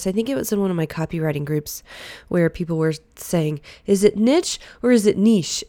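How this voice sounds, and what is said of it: Congested, slightly breathy voice. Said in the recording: “my voice sounds a little bit different today ... I've had a sinus infection for like a week, and I'm going to sound a little more breathy today”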